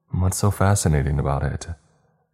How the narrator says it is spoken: Steph quickly replied playfully

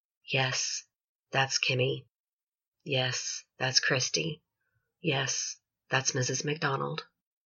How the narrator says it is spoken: The poor man who lived next door quietly said

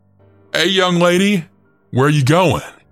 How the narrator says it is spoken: the taller of the two then shouted

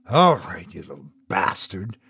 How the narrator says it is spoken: I murmured

